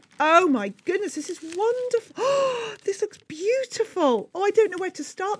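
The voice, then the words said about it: Excited, childlike gushing delivery. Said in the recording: “I know I sound like a child.”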